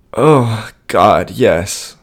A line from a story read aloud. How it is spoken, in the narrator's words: she moaned